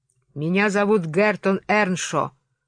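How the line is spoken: Young man barking. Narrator (Russian): рявкнул юноша

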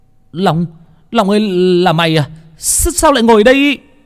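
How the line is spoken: Shout from above. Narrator (Vietnamese): tiếng của thằng Phong ở trên hét lên

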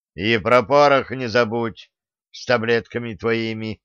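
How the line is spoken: Menacing ruler. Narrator (Russian): грозно продолжил правитель

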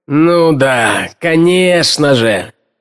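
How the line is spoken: Groaning. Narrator (Russian): простонал Холмс

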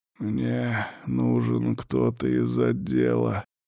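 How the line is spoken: Hoarse croak. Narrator (Russian): прохрипел я

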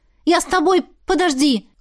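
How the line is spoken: Shouted. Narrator (Russian): крикнула я

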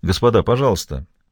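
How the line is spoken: Polite but firm. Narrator (Russian): произнес Хуан Хосе Касерос вежливым, но твердым тоном

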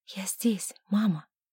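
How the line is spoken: Whispered reply. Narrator (Russian): прошептала она в ответ

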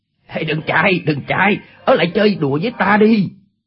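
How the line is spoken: Shouted. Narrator (Vietnamese): Chu Bá Thông quát lên

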